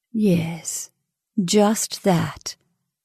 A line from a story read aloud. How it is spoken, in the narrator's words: And did Miss Fulton murmur